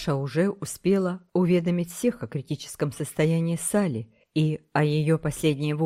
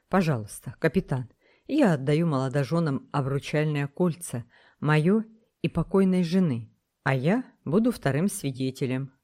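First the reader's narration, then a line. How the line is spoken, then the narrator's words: Plain. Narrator (Russian): сказал Смуга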